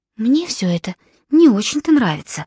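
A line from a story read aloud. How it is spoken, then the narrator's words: Whisper. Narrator (Russian): шепнула ему Филиппа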